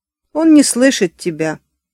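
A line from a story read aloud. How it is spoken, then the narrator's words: Said, then laughed. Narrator (Russian): сказал Бадди и рассмеялся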